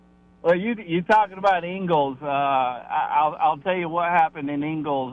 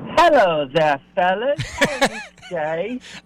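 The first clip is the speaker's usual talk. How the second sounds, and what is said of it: Unconvincing put-on British accent. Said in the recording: “Like, really just British words at this point ... no offense, but anybody from Pickens is just not pulling off that accent”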